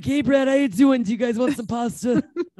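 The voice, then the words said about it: Impression of a friend's mother. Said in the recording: “have I done my impression of your mom yet on here? ... This literally sounds nothing like her.”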